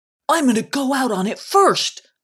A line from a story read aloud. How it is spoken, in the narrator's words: called out Kick'em